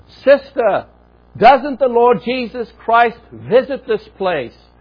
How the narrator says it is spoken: convinced that she was deaf, he practically shouted in her ear

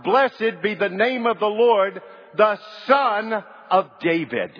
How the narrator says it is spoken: they shout out

